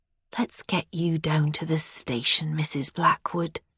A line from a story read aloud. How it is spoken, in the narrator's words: Martin says then, his voice remarkably gentle